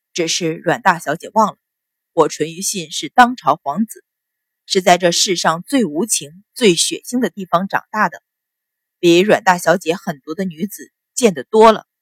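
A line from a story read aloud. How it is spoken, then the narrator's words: Continues after a pause. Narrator (Chinese): 他声音略停之后，又接着道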